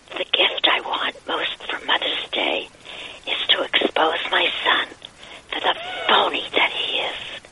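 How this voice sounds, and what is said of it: Whispered voice. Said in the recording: “Sports Whisperer, my idea. Hence the whispering.”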